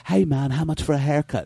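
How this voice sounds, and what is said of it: Put-on British accent. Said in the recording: “take a British accent”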